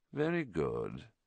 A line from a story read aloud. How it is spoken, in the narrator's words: said Voldemort softly